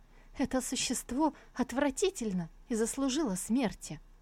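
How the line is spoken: Righteous angry exclamation. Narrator (Russian): Пылая праведным гневом, она воскликнула

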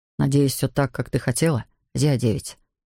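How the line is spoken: Soft. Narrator (Russian): сказал мягко

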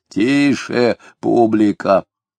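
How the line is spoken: Heavy hoarse voice. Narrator (Russian): Толстый сосед Самгина тяжелым голосом хрипло произнес

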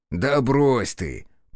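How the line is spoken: Flattered snort. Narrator (Russian): польщенно хмыкнул Бучило

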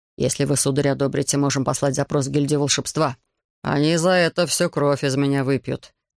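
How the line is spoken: Grumbling. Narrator (Russian): проворчал королевский советник Мива

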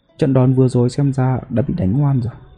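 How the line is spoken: Sighing. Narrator (Vietnamese): gã yêu vương này mới thở dài

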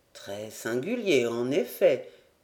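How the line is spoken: Murmur. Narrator (French): murmura le major

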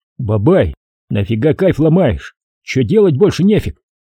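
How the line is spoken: Shouting, suppressing anger. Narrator (Russian): Преодолевая злость и досаду, я крикнул

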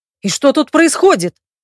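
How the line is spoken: Barked angrily. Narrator (Russian): рявкнул мой несостоявшийся жених

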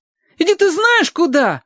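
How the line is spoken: Loud feigned outrage. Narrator (Russian): завопил Костя, стараясь громкостью скрыть ненатуральность возмущения

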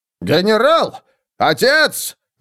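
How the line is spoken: Urgent shout. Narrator (Russian): закричал фон Гелдрехт

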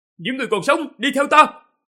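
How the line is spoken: Loud voice. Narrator (Vietnamese): Tần Mục cao giọng nói

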